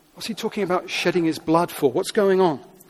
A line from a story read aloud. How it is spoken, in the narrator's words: They're muttering